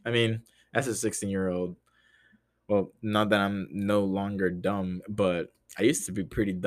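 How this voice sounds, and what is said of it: Usual voice. Nothing is said of it.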